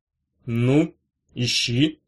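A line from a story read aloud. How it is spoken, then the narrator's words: Plain. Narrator (Russian): сказал он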